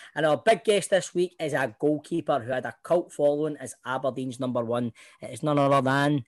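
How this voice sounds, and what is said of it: Usual voice. Nothing is said of it.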